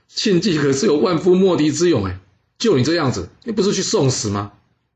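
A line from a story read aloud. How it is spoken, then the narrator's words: Laughing. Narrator (Chinese): 阖閭当场笑出来说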